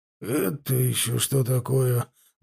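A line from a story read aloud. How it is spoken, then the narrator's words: Breathless, nervous. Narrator (Russian): выдохнул Дэвенпорт, потея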